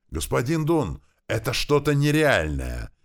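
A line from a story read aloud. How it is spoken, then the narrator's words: Yelling. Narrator (Russian): заорал один из них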